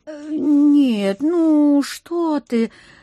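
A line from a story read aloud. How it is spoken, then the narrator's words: Innocent drawl. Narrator (Russian): Самым честным видом протянула я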